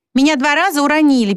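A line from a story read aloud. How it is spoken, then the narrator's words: Squeaking. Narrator (Russian): пискнул Вонючка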